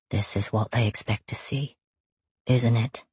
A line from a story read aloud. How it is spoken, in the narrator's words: he murmurs, his face tilted toward my ear